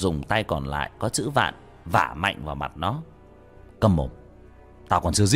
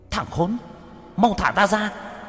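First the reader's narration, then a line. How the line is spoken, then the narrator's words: Child's hateful hiss. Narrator (Vietnamese): Đứa bé mặt mày dữ tợn, căm thù, rít lên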